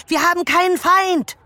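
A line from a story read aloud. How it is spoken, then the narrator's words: Scream. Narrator (German): schrie sie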